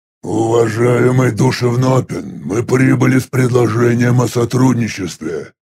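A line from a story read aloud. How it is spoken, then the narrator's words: Rumbling voice. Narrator (Russian): произнес бесформенный ракочущим голосом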